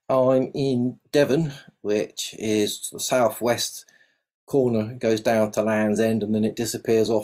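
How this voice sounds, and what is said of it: South London English accent. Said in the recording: “that's where most of my accent is from, South London”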